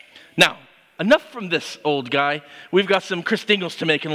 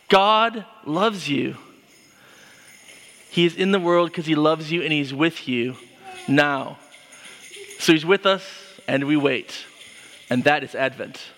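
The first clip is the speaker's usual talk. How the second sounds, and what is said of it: Serious preacher-style delivery. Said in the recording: “I got serious and even put on my preacher voice”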